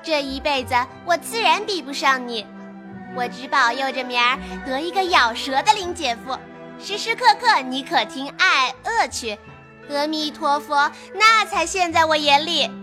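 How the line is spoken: Laughing. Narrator (Chinese): 湘云笑道

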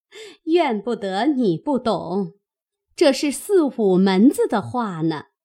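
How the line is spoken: Laughing. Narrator (Chinese): 凤姐笑道

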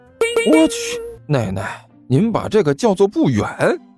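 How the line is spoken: Wry, rueful. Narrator (Chinese): 甘球苦笑着说道

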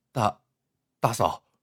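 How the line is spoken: Hurried, stammering. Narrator (Chinese): 张明 急忙开了口

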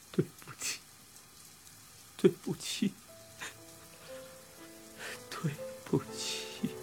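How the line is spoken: Crying apology over water. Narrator (Chinese): 和水声交织在一起，Birdy 哭着连声道歉道

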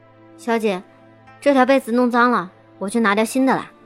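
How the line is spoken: Flat, indifferent. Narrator (Chinese): 新慧 对着我淡淡道

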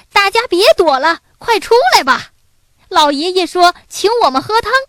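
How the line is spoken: Boy's loud shout. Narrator (Chinese): 小男孩大声叫道

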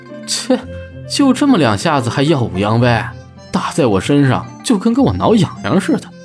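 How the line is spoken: Laughing scornfully. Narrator (Chinese): 朱熹笑道

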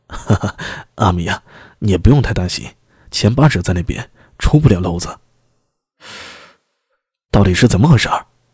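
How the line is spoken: Grinning. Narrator (Chinese): 拐子爷呲牙一笑……接着说道

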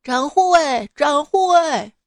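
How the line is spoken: Shouting. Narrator (Chinese): 包公在公堂喊

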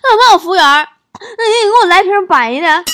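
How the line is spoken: Exasperated shout. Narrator (Chinese): 受不了了，大喊一声

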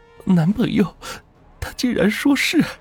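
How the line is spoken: Tearful, on verge of crying. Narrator (Chinese): 王明娇的眼眶一下子就红了，带着哭腔说

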